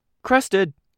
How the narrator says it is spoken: Bluestocking called out

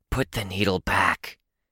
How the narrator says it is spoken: Chris hissed, more insistent than before

